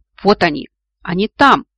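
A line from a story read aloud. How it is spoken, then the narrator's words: Sudden shout, orc. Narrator (Russian): внезапно закричал кто-то из урков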